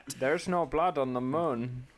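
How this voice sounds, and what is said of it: Inconsistent South African-tinged impression. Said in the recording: “How is your Elon Musk accent? Because mine is all over the place. ... he's a South African twinge, but it's also like it feels like it's someone who like is still learning how to speak ... the emphasis he chooses to put on certain words”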